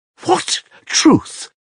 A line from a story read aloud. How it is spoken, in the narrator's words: cried Katerina Ivanovna, and there was an hysterical ring in her voice